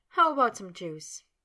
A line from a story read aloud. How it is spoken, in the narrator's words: still chuckling, asked